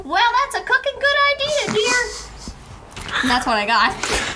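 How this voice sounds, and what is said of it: High-pitched loud Southern-Australian accent. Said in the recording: “accents from their own planet, but wrong ... Southern and Australian and... ... Very high-pitched and loud.”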